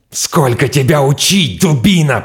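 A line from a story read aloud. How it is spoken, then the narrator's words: Furious hiss. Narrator (Russian): прошипел он яростно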